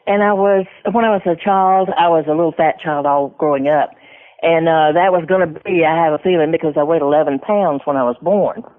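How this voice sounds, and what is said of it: Southern American accent. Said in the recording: “I'm a Southern girl, as you can tell by the accent.”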